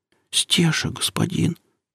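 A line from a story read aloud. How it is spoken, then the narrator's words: Whispered reply. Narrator (Russian): прошептала служанка в ответ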